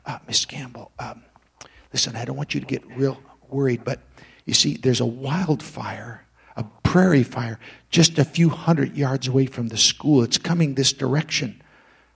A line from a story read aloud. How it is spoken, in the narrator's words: began whispering in Miss Campbell's ear